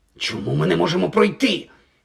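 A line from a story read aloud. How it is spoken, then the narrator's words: Hissing. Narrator (Ukrainian): просичав Гаррі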